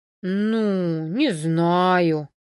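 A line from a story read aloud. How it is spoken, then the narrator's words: Doubtful drawl. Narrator (Russian): с сомнением в голосе протянул Константин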